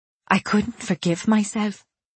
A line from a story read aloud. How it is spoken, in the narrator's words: I said softly